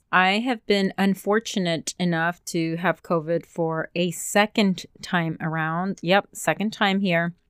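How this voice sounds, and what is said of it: Sick-sounding, unusual voice. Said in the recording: “I sound different, it is because I am getting over COVID”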